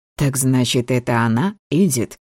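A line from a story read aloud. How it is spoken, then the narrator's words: Laughing, ringing silvery voice. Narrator (Russian): Смеялась и напевала совершенно новым, словно вырвавшимся на волю серебристо-звонким голосом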